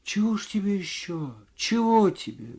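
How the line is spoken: Quiet, bewildered. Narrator (Russian): говорила женщина тихо и в недоумении

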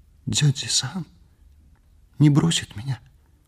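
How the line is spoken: Whispered in ear. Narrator (Russian): Наоми шепнула мне на ухо

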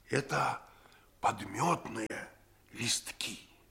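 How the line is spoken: Triumphant whisper. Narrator (Russian): Я победоносно прошептал ему в ухо

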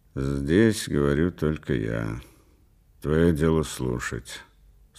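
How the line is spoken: Dry, cold. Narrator (Russian): сказал он сухо и холодно

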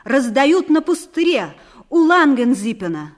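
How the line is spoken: Loud statement. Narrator (Russian): Тимофей Карпыч громко сказал

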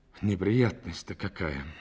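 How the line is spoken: Sigh. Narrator (Russian): вздохнул он

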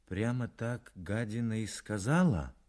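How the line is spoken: Glum, dejected. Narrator (Russian): уныло произнес Сорокин

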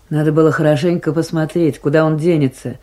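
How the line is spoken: Grumbling mutter. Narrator (Russian): пробурчала Майсарат

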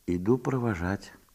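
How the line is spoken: Quiet. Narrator (Russian): тихо сказала ей Марья Степановна

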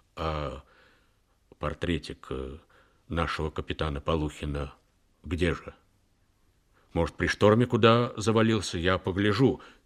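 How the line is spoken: Sad question. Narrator (Russian): Боцман печально спросил

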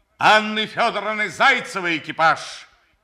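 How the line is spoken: Shouting. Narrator (Russian): закричал он

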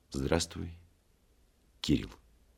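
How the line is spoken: Quiet, after a pause. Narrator (Russian): тихо сказал, помолчав

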